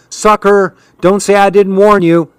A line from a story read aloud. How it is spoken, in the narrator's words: she hollered